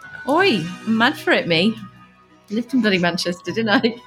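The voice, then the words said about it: Put-on Mancunian accent. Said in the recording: “do the whole episode in a Manga accent.”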